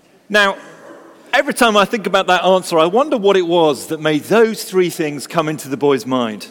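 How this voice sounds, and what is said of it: Usual voice. Nothing is said of it.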